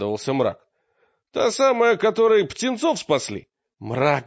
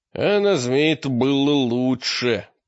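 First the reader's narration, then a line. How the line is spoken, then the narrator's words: Grumble. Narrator (Russian): проворчал Мрак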